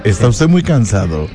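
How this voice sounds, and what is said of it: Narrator announcer voice. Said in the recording (Spanish): “¿Por qué es una voz de locutor? Así.”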